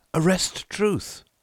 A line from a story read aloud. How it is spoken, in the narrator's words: I cried